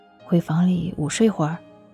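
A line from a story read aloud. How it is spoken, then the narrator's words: Soft suggestion. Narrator (Chinese): 柔声建议道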